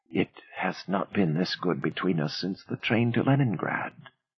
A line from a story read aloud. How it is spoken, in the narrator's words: Before sinking into a deep, dreamless sleep, Aida whispered